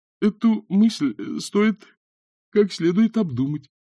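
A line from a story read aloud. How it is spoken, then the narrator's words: Uncertain. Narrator (Russian): неуверенно сказал он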